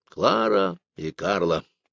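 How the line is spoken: Sad male voice. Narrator (Russian): печально произнес Гольдштейн

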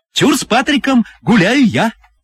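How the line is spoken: Hostess shouting. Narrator (Russian): закричала хозяйка

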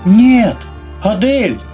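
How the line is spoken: Terrified scream. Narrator (Russian): заорала потерявшая от ужаса остатки разума Марина

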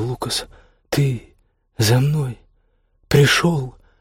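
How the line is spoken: Forced out, strained. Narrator (Russian): Выдавила она из себя

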